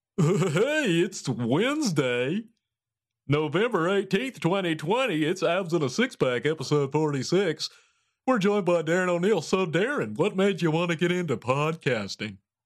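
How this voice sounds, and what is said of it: Announcer-style radio voice. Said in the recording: “Let me redo that. Take two. Radio voice.”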